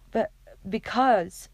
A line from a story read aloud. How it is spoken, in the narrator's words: Clary spluttered